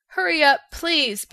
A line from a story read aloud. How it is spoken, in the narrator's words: begged the Tin Woodman